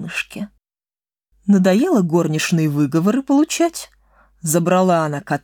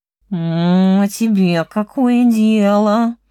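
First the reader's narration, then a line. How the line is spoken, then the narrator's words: Grumbling. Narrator (Russian): проворчал кот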